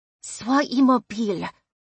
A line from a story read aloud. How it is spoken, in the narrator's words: Odette said through her teeth